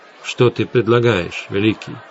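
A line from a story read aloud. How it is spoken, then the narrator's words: Plain. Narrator (Russian): спросил Энгар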